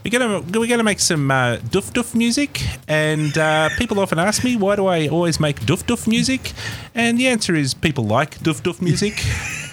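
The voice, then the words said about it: Put-on New Zealand accent. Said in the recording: “his little New Zealand accent”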